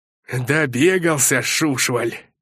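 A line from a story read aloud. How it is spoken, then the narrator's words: Gruff growl. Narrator (Russian): рыкнул косматый привратник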